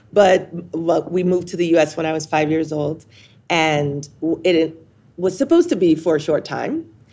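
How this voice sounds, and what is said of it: American accent. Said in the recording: “I'm giving you my best American accent right now. But it will probably shift throughout the podcast.”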